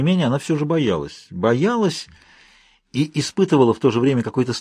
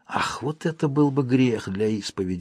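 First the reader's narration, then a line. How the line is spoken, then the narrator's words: Sighing. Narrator (Russian): вздохнула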